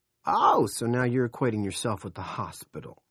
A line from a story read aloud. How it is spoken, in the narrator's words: Big Jim snorted